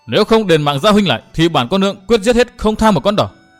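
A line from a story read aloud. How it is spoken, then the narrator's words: Shouting. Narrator (Vietnamese): gia nhân lại hét lên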